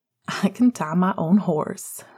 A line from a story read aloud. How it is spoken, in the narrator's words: laughed